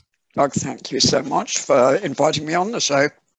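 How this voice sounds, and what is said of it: Slight UK accent. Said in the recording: “You folks might detect a bit of an accent... Just a touch of a UK accent”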